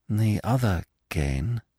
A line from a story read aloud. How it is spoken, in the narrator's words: she said slowly